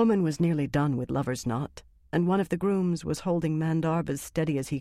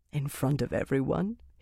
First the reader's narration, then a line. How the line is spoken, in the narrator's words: he said, laughing